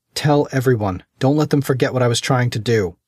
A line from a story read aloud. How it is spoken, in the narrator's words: shouted